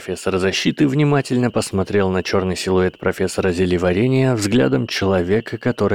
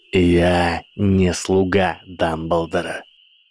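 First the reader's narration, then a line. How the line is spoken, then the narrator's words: Said coldly. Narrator (Russian): холодно сказал профессор Снейп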